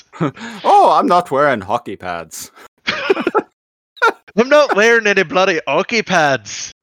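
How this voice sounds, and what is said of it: Poorly done put-on Irish accent. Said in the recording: “I just pictured him with an Irish accent ... butchering the accent”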